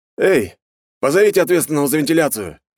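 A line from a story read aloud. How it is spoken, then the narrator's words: Barking. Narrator (Russian): рявкнул он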